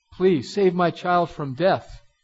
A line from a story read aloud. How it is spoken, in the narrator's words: he cried